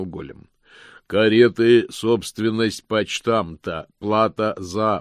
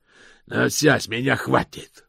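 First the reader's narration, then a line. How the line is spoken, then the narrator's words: Growl. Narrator (Russian): прорычал Джим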